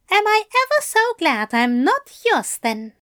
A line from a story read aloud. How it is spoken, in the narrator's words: he said haughtily